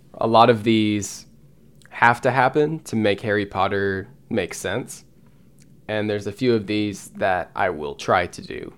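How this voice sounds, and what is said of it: Strained, fading voice. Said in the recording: “my gosh, my voice is going away.”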